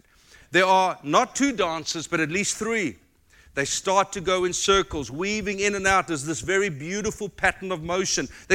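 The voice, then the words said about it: South African accent. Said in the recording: “it's just my South African accent”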